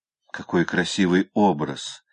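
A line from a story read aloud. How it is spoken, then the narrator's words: Soft laughter, avoiding coughing. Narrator (Russian): сказала Хлоя и засмеялась, но тихонько, чтобы снова не закашляться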